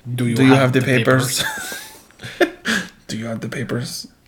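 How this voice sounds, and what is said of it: Bad put-on cartoon spy accent. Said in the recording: “This is a terrible accent. ... Why are you guys talking like Boris and Natasha?”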